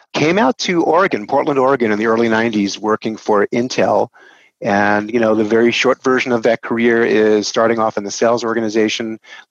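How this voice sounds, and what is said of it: New York accent. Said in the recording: “If I haven't betrayed myself in the first 10 seconds, my accent is from New York, born and raised New Yorker.”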